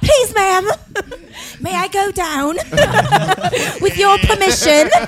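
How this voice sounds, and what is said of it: Put-on Dobby-like elf voice. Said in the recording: “Sounded like Dobby the Elf ... accent ... she drops a new accent like every episode now”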